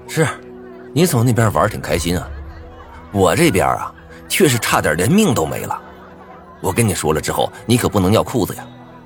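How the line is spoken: Cold voice. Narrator (Chinese): 冷声道

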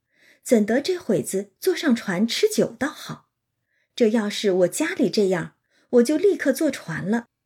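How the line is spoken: Laughing. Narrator (Chinese): 湘云笑道

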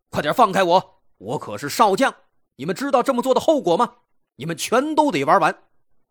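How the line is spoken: Shouting. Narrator (Chinese): 吼叫声

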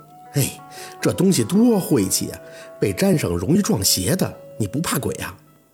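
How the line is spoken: Sighing. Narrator (Chinese): 家树叹气

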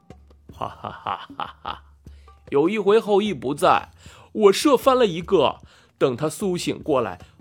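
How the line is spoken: Laughing. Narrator (Chinese): 吴刚笑着说

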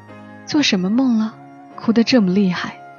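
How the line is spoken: Sighing. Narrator (Chinese): 他叹息

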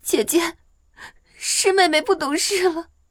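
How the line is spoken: Tearful voice. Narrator (Chinese): 蓝静怡含着哭腔说道

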